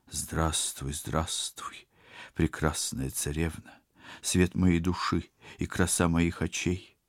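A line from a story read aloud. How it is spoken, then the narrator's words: Indifferent forced sing-song. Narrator (Russian): Совершенно равнодушным голосом, улыбаясь изо всех сил, пропел новообращенный гражданин бессмертный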